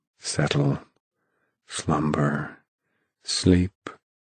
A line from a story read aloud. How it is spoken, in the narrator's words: whispered Mound Shroud softly